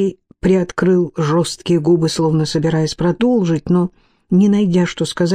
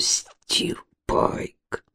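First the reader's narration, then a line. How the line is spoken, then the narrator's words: Muttering. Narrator (Russian): пробормотал долговязый, ободранный, неподвижный человек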